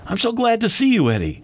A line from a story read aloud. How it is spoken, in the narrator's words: he said warmly